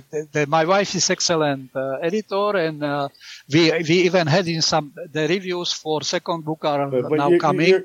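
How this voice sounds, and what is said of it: Non-native English accent. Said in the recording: “Your accent is not bad, you know.”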